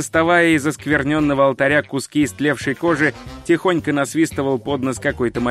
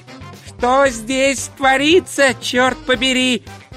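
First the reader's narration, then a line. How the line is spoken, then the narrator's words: Shouted. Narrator (Russian): прокричал он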